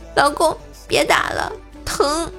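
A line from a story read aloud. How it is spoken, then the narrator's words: Tearful apology. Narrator (Chinese): 我哭着认错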